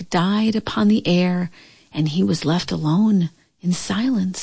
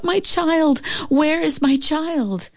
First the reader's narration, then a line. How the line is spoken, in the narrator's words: the mother cried out